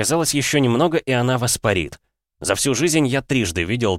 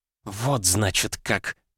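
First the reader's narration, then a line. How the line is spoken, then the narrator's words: Hiss. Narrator (Russian): прошипела она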